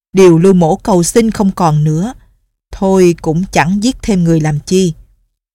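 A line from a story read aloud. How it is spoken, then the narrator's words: Old man speaking loudly. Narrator (Vietnamese): lão lớn tiếng nói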